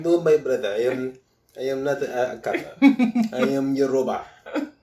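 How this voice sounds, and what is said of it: Put-on African accent. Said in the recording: “That accent.”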